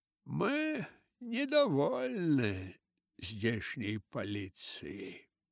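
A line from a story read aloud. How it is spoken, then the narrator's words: Tired voice. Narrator (Russian): продолжал Вурмт усталым голосом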